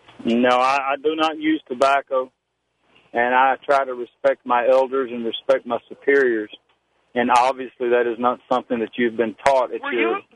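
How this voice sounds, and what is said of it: Southern American accent. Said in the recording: “guys that sound like that ... with a southern-style accent”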